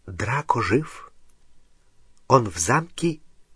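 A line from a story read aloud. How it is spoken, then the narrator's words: Barely audible whisper. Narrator (Russian): Еле слышный шепот в дюйме от его уха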